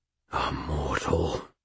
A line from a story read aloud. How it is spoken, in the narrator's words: Sir Stuart breathed